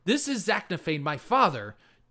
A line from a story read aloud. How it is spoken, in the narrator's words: Drizzt yelled, saying